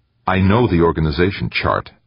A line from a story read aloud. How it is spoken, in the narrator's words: snapped